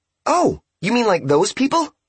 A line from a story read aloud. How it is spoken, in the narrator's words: She asked brightly